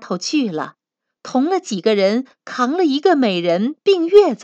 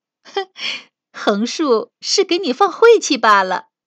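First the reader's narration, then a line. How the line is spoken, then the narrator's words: Laughing. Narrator (Chinese): 探春笑道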